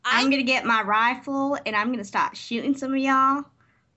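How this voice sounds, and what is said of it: Put-on Texan accent. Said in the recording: “busting out the Texan accent”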